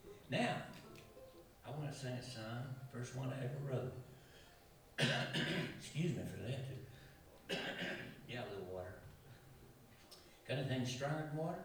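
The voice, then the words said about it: Cracky, strained voice. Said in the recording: “my voice is a little cracky here tonight”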